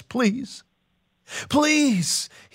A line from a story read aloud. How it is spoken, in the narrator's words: the leper cries